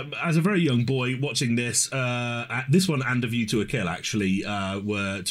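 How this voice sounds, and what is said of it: Usual voice. Nothing is said of it.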